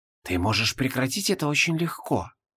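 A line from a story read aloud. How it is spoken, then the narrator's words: Masked man whispering. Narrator (Russian): прошептал носящий желтую маску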